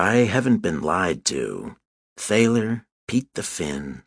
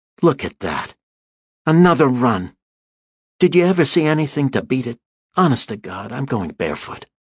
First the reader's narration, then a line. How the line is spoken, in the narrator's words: exclaimed indignantly